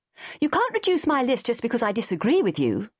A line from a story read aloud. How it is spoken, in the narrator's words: she said fiercely